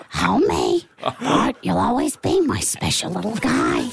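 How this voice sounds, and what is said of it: Marge Simpson cartoon voice impression. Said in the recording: “best impersonations ... for Marge Simpson”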